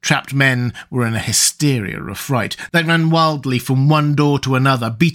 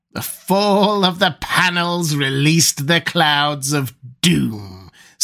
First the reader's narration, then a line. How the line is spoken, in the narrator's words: said the Red Priest with a wild laugh